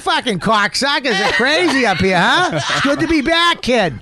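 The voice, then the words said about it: Fake Boston accent. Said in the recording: “I guaranteed fake an accent 2 weeks in”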